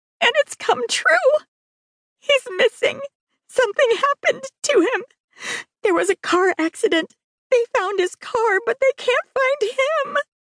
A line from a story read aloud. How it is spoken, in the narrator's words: she squeaked